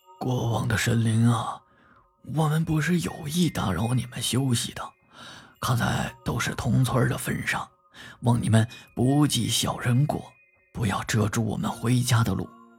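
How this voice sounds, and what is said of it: Quiet, hushed voice. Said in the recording (Chinese): “小声的说道”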